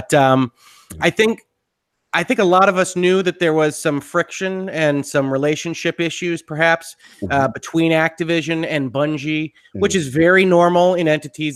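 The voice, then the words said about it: Gruff, slightly rough sick voice. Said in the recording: “apologize for my voice... I've been getting over a little bit of something over the last couple days... a little gruffness from me”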